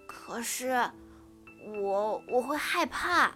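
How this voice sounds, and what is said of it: Quiet, timid small voice. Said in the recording (Chinese): “小声地说”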